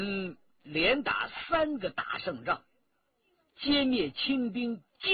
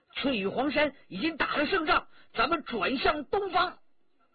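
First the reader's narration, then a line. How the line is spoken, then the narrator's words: Captain calling out. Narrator (Chinese): 白旗一队队长叫着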